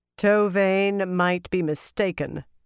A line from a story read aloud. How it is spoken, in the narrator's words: Tsutama said in a very strong voice